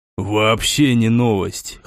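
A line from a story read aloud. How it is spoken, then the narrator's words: Smirking snort. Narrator (Russian): хмыкнул гвоздь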